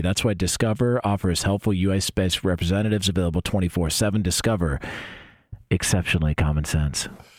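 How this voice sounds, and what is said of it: Smooth radio announcer voice. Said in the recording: “Sounds like one of those 1-900 hotlines ... That was like a 1-900 hotline ... That's just a radio voice”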